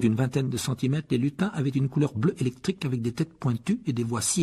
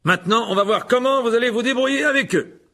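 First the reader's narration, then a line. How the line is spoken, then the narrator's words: Loud voice. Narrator (French): dit Lockhart d'une voix forte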